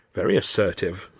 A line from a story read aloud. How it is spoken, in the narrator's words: Stan muttered approvingly